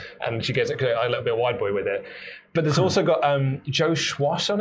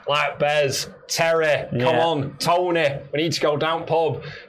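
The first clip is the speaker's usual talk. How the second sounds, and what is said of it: Put-on Manchester accent. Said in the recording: “my Manchester accent”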